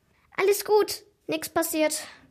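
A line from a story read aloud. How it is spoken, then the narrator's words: Cheerful. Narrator (German): nickte er fröhlich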